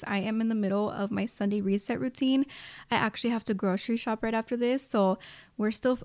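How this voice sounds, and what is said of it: Breathless, out-of-breath speech. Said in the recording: “girl, I'm out of breath.”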